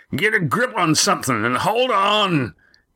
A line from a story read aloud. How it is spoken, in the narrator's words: yelled Roaring Jack